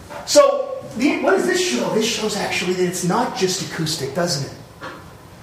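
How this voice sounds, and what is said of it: Usual voice. Nothing is said of it.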